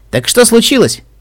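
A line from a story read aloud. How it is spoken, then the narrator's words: Cheerful question. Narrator (Russian): весело спросила Рейнбу Дэш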